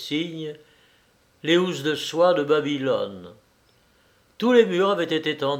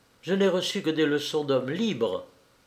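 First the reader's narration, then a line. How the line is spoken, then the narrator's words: Curt reply. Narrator (French): répondit sèchement Arvin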